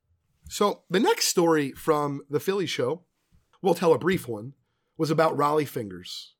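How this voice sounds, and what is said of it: Voice slightly sick with a cold. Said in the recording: “my voice is just a little bit under the weather. I think I caught my son's cold”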